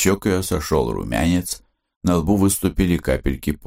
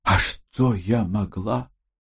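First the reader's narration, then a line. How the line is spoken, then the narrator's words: Silently mouthed breath. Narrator (Russian): Одними губами выдохнула Радченко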